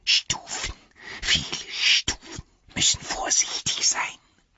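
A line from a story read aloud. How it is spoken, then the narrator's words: Whispering. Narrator (German): flüsterte er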